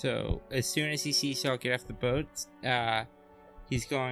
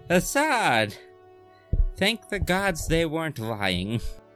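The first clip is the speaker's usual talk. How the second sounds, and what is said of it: Tipsy slurred character voice. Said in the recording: “slurred uh, Kelishite, but also uh, definitely with like the accent that you'd expect someone who's never actually heard the language spoken ... you're a little bit tipsy ... you're using like uh what I presume is more like your natural accent”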